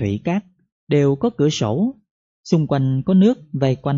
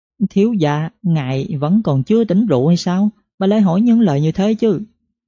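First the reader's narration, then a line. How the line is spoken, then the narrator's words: Surprised, giggling behind hand. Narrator (Vietnamese): A Hoàng trước tiên ngạc nhiên, rồi đưa tay lên che miệng cười khúc khích nói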